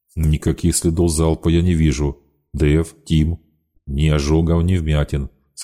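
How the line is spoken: Plain. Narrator (Russian): сказал Кизимов

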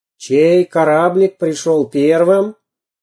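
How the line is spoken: Loud sea captain question. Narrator (Russian): громко спросил настоящий морской капитан

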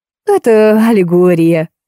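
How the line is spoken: Laughing. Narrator (Russian): засмеялся Карлуша

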